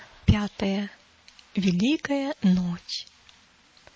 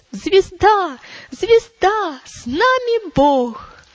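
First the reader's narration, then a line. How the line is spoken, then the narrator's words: Excited exclamation in unison. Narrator (Russian): воскликнули в один голос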